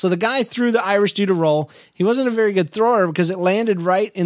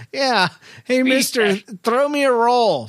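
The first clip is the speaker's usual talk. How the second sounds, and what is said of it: Poor deep put-on Irish accent. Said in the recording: “a deep Irish voice ... My voice still sucks. My Irish accent. ... Still Norwegian.”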